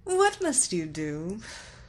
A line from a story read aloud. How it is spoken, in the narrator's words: She laughed